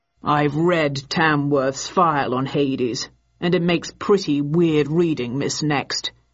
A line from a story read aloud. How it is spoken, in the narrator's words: he said